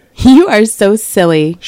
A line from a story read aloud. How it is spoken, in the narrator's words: she laughed